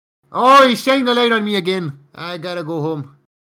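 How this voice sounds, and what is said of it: Put-on Scottish accent. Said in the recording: “Is that Scottish? ... Yeah.”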